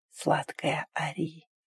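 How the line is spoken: Hoarse whisper. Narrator (Russian): прошептал хрипло

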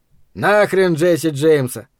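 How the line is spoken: Grumbled. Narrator (Russian): пробурчал Эд

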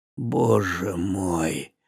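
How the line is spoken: Whisper. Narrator (Russian): прошептал наконец-то Бари

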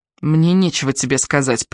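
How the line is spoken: Through gritted teeth. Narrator (Russian): процедила Ария

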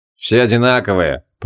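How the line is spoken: Grumbling. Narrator (Russian): проворчал Шамшудин

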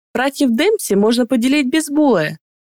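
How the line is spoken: Laughing. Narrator (Russian): смеялась Фалье

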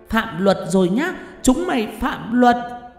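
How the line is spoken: Hissing shriek. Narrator (Vietnamese): Con quỷ đầu đàn thấy vậy thì rít lên

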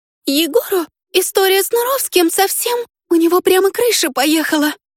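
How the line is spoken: Sobbing. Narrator (Russian): Всхлипнула она

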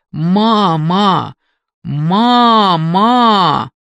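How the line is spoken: Shouting. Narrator (Russian): Она кричала

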